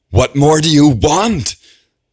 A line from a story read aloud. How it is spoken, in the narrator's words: yells